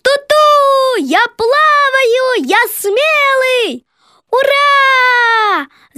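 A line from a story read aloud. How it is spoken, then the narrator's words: Child and frogs shouting. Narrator (Russian): Закричали малыш, похожий на тебя, и лягушки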